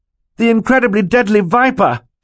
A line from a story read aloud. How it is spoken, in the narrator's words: Klaus cried